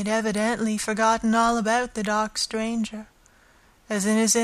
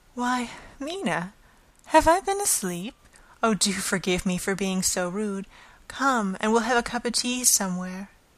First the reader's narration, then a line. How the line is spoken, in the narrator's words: he woke up and said to me, quite cheerfully